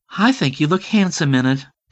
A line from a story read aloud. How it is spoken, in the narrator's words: Barbie said dreamily